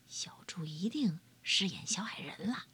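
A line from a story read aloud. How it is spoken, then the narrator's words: Quiet father. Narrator (Chinese): 猪爸爸小声的回答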